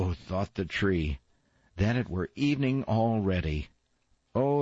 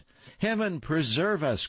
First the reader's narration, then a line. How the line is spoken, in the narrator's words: cried the young ladies